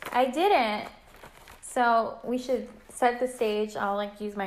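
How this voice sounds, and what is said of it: Usual voice. Nothing is said of it.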